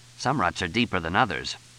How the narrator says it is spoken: Fletch muttered

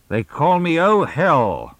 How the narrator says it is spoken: Mooney announced, his voice resonating in the closed car

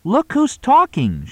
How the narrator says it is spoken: she exclaimed

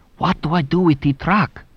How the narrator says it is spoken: From inside the elevator, Menti whispered

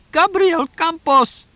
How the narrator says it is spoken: Idelina shrieked

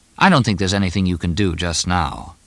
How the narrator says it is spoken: In a reasonable tone of voice, Fletch said

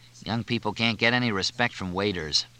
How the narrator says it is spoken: Fletch muttered

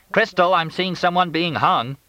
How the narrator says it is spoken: Fletch yelled

